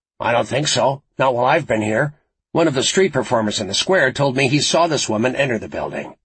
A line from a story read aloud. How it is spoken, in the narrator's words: Frost snapped